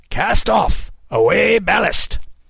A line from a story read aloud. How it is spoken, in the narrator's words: bellowed